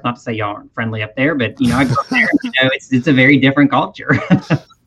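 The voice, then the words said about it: Strong Southern US accent. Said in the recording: “you've got that stone cold Southern accent right down”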